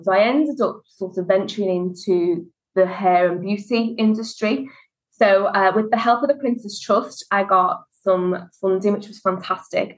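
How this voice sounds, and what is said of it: Liverpool Scouse accent. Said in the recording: “as you can tell from the accent, I'm from Liverpool”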